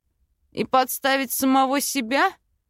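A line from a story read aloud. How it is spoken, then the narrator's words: Short laugh. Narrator (Russian): хохотнул Анзель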